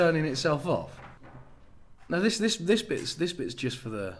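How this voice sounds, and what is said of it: Usual voice. Nothing is said of it.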